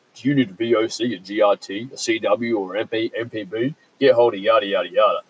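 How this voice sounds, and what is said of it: Mock radio advert announcer voice. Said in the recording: “they put this stupid radio voice on ... this guy that puts on his voice ... my mining industry voice”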